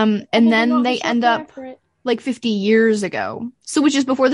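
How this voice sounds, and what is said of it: Usual voice. Nothing is said of it.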